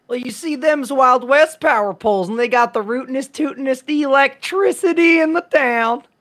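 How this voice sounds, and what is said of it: Put-on folksy Western accent. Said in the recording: “Staying in that accent”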